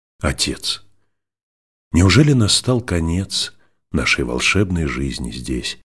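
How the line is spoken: Plain. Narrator (Russian): спросила Наль

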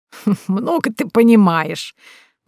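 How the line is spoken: Laughing reply. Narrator (Russian): в ответ засмеялась Эбби, по-доброму

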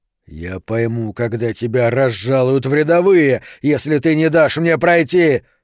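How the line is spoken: Growled. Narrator (Russian): зарычал Шрёдер

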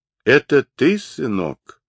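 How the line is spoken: Weak, barely recognizable voice. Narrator (Russian): Слабым, почти неузнаваемым голосом спросил из сумрака отец

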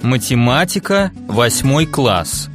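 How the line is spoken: Expressive reading. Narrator (Russian): выразительно прочитал

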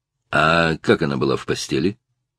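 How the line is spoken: Quiet question. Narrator (Russian): спросил сержант негромко

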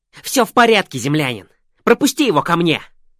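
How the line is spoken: Shout. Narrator (Russian): выкрикнул Верзила

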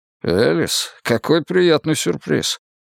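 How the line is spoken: Muttered. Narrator (Russian): пробормотал он

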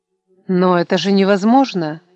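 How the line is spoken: Panicked exclamation. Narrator (Russian): воскликнула, чувствуя, как ее охватывает паника

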